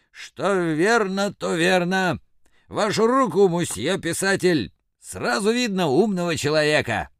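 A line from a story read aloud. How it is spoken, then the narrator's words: Hoarse laughing. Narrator (Russian): Он хрипло хохотал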